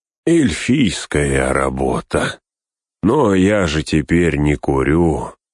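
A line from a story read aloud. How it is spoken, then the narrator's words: Sighing. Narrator (Russian): вздохнул он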